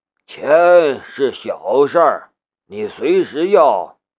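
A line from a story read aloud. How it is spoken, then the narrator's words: Flat, indifferent. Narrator (Chinese): 穆剑锋淡淡的道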